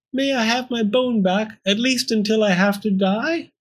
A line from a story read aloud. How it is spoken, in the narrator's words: Pearl whimpered